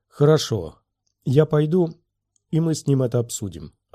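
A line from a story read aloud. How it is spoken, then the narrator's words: Plain. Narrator (Russian): ответила Занита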